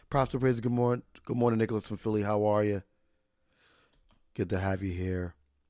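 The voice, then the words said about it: Raspy hoarse voice. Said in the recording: “The raspy voice is within me.”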